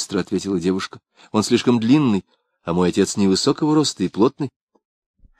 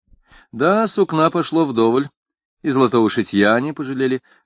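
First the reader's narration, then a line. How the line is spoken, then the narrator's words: Answering with soft merry laugh. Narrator (Russian): ответил зверобой, смеясь своим тихим веселым смехом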